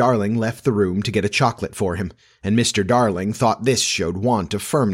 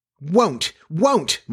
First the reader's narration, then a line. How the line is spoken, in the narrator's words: Michael cried naughtily